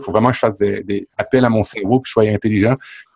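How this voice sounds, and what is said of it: Québécois French accent. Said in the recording (French): “je me distingue par mon accent avec des Français... mon langage, c'est mon patois qui est, différent d'eux autres”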